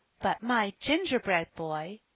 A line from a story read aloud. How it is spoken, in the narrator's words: cried Phronsie, running eagerly